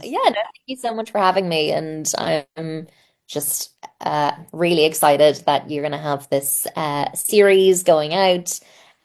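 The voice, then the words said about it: Irish accent, speaking slowly. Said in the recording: “slowing down your I Irish accent”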